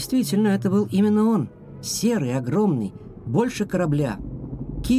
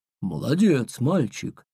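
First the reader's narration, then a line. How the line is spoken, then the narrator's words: Deep bass voice of whale. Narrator (Russian): пробасил кит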